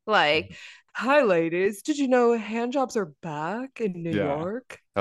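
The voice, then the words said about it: Imitates a TV character's voice. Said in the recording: “comparing her to Kim Cattrall's character on Sex and the City ... she's Samantha ... That was a really good impression.”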